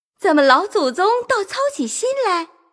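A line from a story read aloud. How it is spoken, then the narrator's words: Laughing. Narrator (Chinese): 王夫人也笑了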